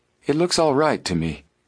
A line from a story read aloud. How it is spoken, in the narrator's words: he said in a relieved voice